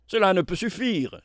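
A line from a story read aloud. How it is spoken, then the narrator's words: Exclaimed. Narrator (French): s'écria Éric Baldenac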